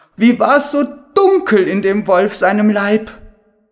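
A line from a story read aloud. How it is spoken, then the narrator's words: Girl calling out. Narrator (German): sprang das Mädchen heraus und rief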